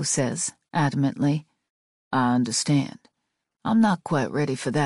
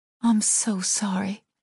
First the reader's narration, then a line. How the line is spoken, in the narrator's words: I whisper